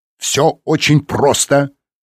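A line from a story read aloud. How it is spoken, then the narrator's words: Barking shout. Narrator (Russian): рявкнул Реми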